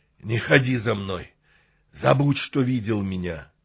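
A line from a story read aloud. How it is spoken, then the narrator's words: Hoarse. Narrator (Russian): Каннибал прохрипел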